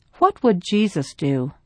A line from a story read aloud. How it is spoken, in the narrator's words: gently asked